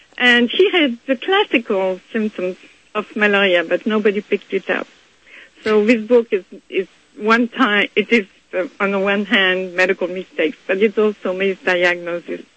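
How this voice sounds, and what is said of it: French-accented English. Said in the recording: “you have a wonderful, beautiful accent, and I know that you are from France”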